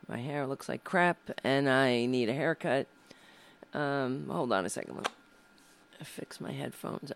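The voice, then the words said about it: Raspy, hoarse voice. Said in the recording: “I lost my voice a little bit, so you'll just have to endure the sound of me with a raspy voice.”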